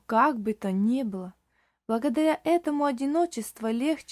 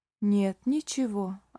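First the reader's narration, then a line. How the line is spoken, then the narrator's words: Old man, sad. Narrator (Russian): ответил старик печально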